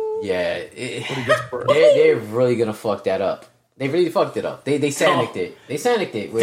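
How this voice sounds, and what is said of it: Usual voice. Nothing is said of it.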